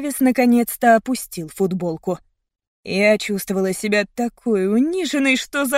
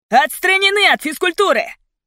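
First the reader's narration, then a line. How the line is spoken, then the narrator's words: Hysterical shout. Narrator (Russian): истерически крикнул он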